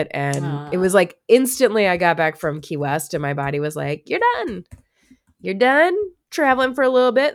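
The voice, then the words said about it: Congested, sick-sounding voice. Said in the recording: “my sexy voice and all the times I've been coughing ... I'm sick ... I got a head cold sick”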